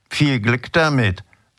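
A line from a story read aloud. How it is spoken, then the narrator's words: Hoarse, mocking, rattling. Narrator (German): sagte sie, und ihre heisere Stimme hatte nun einen spöttischen, scheppernden Ton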